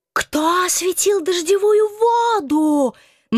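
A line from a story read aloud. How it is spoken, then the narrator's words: Hysterical screaming devil. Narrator (Russian): На одной истерической ноте вопил дьявол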